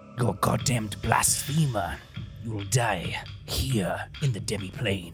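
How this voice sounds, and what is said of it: Whispered threat. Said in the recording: “as I whisper”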